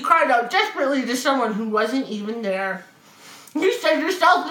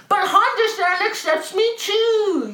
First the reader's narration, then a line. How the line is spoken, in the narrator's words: Yuki cried